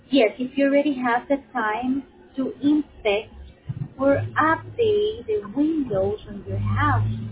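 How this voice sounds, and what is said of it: Strong, hard-to-understand accent. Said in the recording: “You've got a terrible accent. Can't understand it.”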